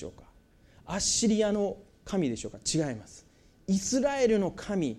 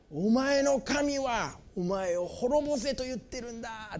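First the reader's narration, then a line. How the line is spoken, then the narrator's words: Shout. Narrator (Japanese): ってラブシャケはエルサレムに叫ぶんです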